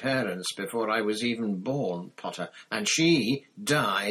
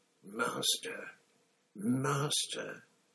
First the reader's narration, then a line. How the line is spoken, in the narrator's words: he murmured